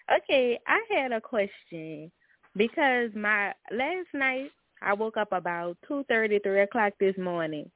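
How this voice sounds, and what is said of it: New Orleans accent. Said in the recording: “I can tell by the beautiful accent ... I'm calling from New Orleans.”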